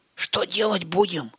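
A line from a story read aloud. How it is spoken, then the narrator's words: Whispered question. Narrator (Russian): шепотом спросил Растафарыч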